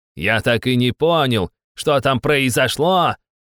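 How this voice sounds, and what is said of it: Mocking imitation of his companion. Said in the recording (Russian): “передразнил своего компаньона”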